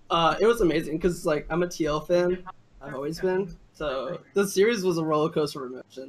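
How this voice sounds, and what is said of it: Chicago accent. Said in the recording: “Can you detect my Chicago accent? I'm like originally from Chicago. ... I definitely did notice it.”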